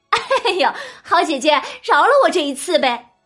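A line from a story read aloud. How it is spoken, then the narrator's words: Laughing, pleading. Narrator (Chinese): 旁边的琥珀笑着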